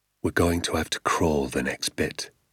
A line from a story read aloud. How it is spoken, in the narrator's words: he whispered